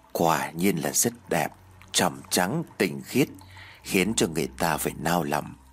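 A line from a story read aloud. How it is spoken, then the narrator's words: Slight smile. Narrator (Vietnamese): ông Vương khẽ mỉm cười rồi nói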